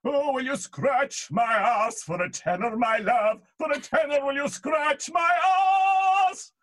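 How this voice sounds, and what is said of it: Fake tenor singing voice. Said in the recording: “My fake tenor singing ... I used to just kind of do the ah, the fake tenor singing”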